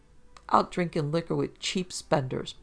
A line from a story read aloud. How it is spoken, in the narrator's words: Pa cackled